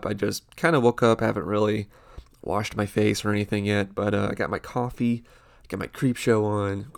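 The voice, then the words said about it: Stuffed-up, congested voice. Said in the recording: “I sound a little stuffed up.”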